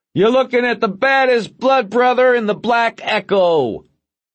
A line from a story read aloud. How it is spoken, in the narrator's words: yelled